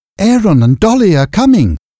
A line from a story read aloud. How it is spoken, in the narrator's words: said Eppie excitedly